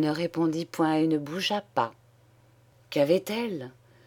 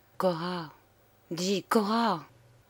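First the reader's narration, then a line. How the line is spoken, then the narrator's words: Anxious murmur. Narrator (French): son angoisse grandissant, il murmura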